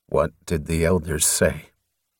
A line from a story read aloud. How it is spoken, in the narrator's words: he asked grimly